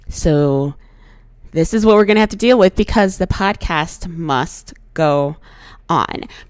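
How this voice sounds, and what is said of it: Hoarse voice. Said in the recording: “Excuse my voice if I'm sounding a little hoarse. Your girl has been hungover all day and my voice just has not come back.”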